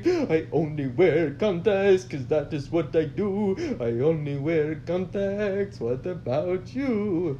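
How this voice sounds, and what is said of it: Put-on accent of unhinged man. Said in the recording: “What's that accent? ... It was the accent of a man who was fucking in ... on the brink of mental collapse.”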